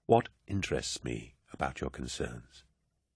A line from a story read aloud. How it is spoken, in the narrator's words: Cinderman said, keeping his voice precisely low so that only Loken's enhanced hearing could follow it